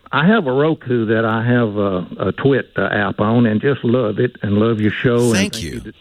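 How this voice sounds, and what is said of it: East Texas accent. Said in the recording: “regional accents, so I thought I'd bring you one ... East Texas ... It's an East Texas accent”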